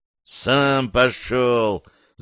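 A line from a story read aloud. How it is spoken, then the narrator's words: Mumbled in chorus. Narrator (Russian): замычали пилоты хором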